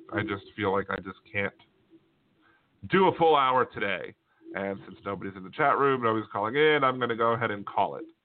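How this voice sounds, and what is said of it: Tired-sounding voice. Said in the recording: “I am feeling a little tired. I mean, you might be able to hear it in my voice.”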